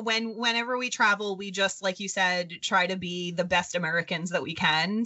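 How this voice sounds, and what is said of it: New York accent. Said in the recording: “You have a New York accent ... they can hear our accent”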